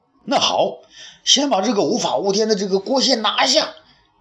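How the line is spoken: Shouting. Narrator (Chinese): 张汤叫道

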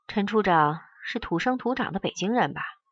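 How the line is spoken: Sudden sigh. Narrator (Chinese): 罗思义突然叹了一声，说

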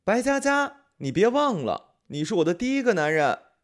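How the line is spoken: Teasing shout. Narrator (Chinese): 调侃似的对我喊

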